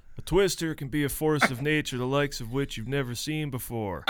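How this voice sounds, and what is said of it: Laconic, unexcited imitated voice. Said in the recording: “the impersonation ... a super laconic guy”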